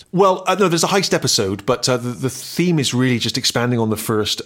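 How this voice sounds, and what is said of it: Bristol accent, West Country burr. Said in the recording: “I'd grown up in Bristol. Everyone spoke the same way. ... my accent was considered slightly parochial ... I was sort of considered a yokel ... the voice that a farmer would have”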